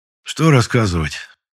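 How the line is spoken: Colonel's heavy sigh. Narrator (Russian): тяжело вздохнул полковник

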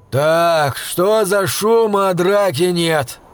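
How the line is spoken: Rough, smoke-hoarse voice. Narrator (Russian): раздался грубый, охрипший от папирос голос

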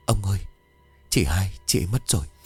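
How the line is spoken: Trembling voice. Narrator (Vietnamese): Bà nói bằng cái giọng đầy run rẩy

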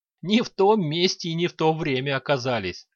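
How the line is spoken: Chuckling. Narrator (Russian): хохотнул Лич

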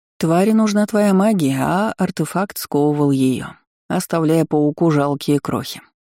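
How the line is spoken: Plain. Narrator (Russian): ответила Лаура

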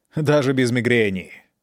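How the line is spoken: Plain. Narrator (Russian): ответил доктор

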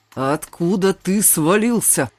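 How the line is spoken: Rumbling, grimacing, then grumbling. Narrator (Russian): Пророкотал Тахир, искривившись, заворчал

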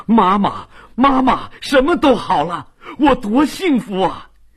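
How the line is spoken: Overjoyed. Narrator (Chinese): 他太高兴了

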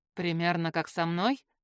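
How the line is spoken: Snorting. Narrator (Russian): хмыкнул Арван

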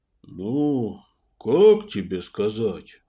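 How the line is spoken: Sighed. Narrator (Russian): вздохнул Далин

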